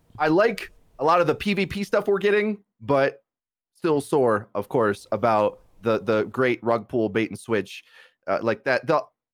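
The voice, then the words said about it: Sick, strained voice. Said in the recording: “I'm a little bit sick. My voice is training a little bit.”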